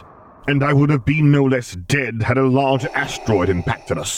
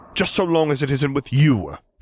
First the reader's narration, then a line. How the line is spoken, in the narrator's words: Piet snapped